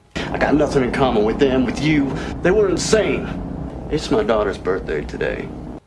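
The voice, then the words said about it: Unconvincing put-on Southern American accent. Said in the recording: “Southern accent. ... This doesn't really hit any of the marks. Southern accents have vowel breaking in words like creep and freak.”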